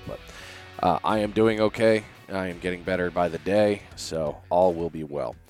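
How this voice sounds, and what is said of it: Slightly raspy voice. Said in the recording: “if my voice sounds a little raspy”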